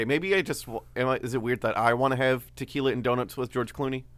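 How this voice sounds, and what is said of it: Usual voice. Nothing is said of it.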